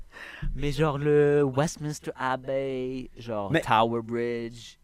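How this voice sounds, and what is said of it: Put-on English accent, sounds American. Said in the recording (French): “pourquoi tu prends un accent comme ça Il parle quasiment comme les Américains”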